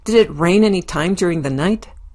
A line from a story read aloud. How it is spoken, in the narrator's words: barks